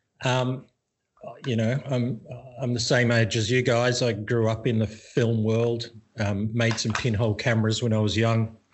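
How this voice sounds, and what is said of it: Australian accent. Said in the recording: “people can tell from my accent that I'm not Thai. I'm from Australia.”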